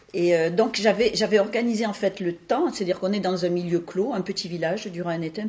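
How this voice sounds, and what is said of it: Southern French accent. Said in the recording (French): “Vous l'entendez à mon accent, je suis née en dessous de la Loire, bien en dessous de la Loire.”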